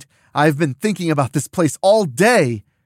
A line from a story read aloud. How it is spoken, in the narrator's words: Mona says excitedly